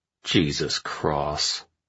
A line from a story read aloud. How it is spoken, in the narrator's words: Arash muttered